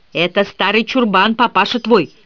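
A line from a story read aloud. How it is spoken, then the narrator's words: Heated angry shout. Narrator (Russian): распаляясь, выкрикнула Милли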